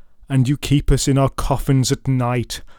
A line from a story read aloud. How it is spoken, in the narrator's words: moaned the dead